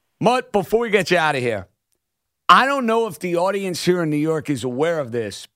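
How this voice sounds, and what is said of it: Thick New York accent. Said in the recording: “I have a little bit of a thick accent. ... my New York emotions”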